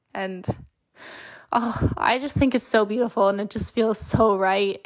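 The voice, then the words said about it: Emotional voice. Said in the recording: “I got a little emotional there. I did warn you ahead of time that I was going to get emotional.”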